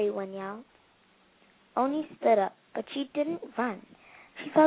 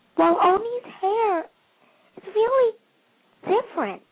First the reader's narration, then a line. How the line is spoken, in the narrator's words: exclaimed